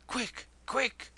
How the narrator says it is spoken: gasped the Mahratta

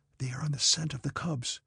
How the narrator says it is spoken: he whispered

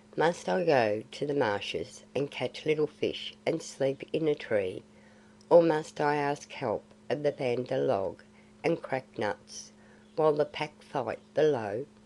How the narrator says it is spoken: said Mowgli, quite gravely

